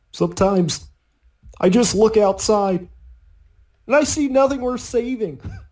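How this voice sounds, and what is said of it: Haunted Kermit the Frog impression. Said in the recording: “My only really good impression, of course, is Haunted Kermit.”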